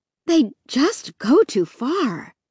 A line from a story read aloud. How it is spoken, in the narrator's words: Mom said breathlessly, jogging to keep up with us